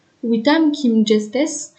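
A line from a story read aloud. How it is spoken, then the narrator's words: Hoarse voice. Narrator (French): répondit son interlocuteur d'une voix rauque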